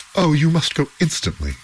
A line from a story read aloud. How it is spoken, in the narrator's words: cried the two men